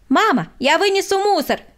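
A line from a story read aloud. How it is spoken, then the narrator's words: Shout. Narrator (Russian): крикнул Владик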